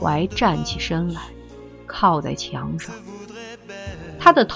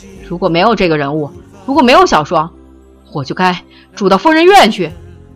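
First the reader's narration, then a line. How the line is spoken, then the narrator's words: Frantic shouting. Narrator (Chinese): 狂喊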